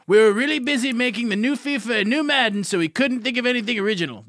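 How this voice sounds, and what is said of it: Imitates a video game company worker. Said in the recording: “your EA impression ... my EA worker impression”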